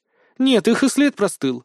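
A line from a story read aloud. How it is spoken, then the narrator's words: Sigh. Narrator (Russian): вздохнула Вика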